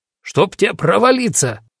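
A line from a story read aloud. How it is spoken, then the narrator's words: Barked, foreman. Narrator (Russian): рявкнул десятник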